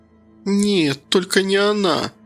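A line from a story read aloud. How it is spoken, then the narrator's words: Moaning. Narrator (Russian): простонала Кира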